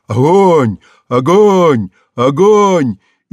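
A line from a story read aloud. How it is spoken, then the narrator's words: Frenzied shout. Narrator (Russian): Он кричал бешеным голосом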